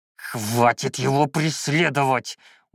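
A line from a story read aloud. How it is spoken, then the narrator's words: Growled. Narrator (Russian): уже буквально прорычал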